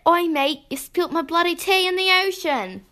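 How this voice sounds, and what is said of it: Attempted Australian accent. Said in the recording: “Australian!”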